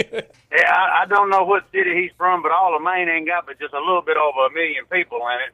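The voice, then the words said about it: Virginia accent. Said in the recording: “You sound like you got an accent ... I'm from Martinsville, Virginia”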